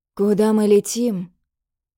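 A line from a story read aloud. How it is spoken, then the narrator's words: Hoarse, unsteady, unused voice. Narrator (Russian): Его голос прозвучал хрипло и неуверенно, будто он давно не пользовался им по назначению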